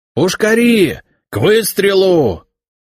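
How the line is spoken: Loud yelled command. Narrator (Russian): заорал красномордый лейтенант, ставший таковым всего неделю назад

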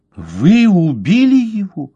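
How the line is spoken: Woman exclaiming. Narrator (Russian): воскликнула женщина

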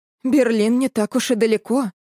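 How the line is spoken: Sighing. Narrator (Russian): вздохнула мама

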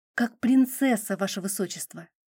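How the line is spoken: Quiet nervous reply. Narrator (Russian): так же тихо ответила от волнения

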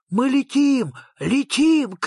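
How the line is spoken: Shouted. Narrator (Russian): крикнул Фредриксон

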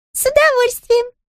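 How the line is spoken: Squeaky voice. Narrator (Russian): пропищала Тутта

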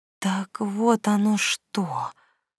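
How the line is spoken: Whispered. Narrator (Russian): шепотом произнесла

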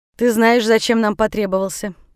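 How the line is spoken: Dry tone. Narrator (Russian): сухо обратился он к Джалалуддину

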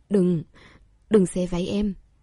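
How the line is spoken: Hoarse. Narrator (Vietnamese): dùng giọng khàn khàn nói

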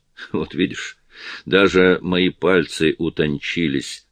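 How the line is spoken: Plain. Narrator (Russian): сказала она

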